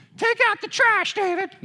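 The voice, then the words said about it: Imitates another person's voice. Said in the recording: “That was my dad's voice. That was my impression of him.”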